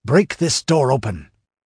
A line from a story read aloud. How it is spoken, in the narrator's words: snapped Ascalante